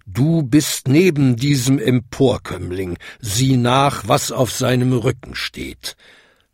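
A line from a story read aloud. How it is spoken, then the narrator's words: Thundering, booming. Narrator (German): donnerte die größte Glocke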